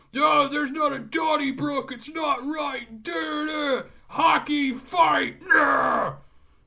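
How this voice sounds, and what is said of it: Imitates another person's voice. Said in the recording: “that was a good impersonation.”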